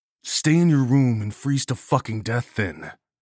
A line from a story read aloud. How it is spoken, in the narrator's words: I snarled back